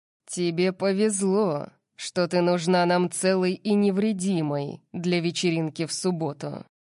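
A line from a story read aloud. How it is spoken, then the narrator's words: Growled. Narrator (Russian): прорычал он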